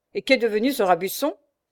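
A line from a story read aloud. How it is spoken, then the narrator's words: Quick interrupting question. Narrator (French): demanda vivement le lieutenant Douvel, interrompant à dessein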